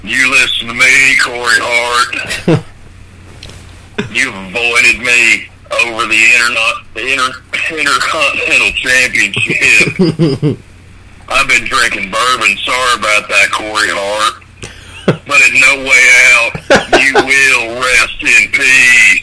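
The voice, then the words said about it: Imitates another person's voice. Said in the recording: “It's actually a really good Undertaker impression.”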